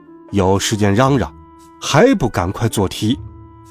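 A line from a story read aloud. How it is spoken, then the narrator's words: Cold. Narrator (Chinese): 他冷冷地说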